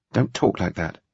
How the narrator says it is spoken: she said, quietly insistent

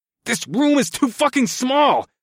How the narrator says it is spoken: I grunted

